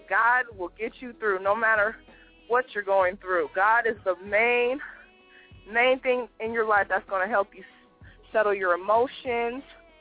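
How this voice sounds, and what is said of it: Out of breath speech. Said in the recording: “I'm out of breath. I've been walking around talking”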